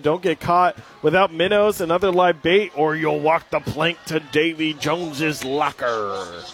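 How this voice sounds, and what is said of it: Pirate voice. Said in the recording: “in my best pirate voice”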